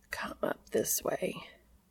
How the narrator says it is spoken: he says, his voice slow and rough

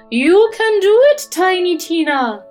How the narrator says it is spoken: cried Madame Fairy

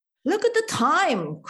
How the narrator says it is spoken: cried Fishgoppel

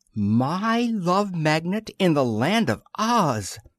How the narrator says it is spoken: exclaimed Concho

